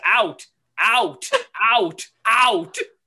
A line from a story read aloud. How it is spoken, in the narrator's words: Corey screams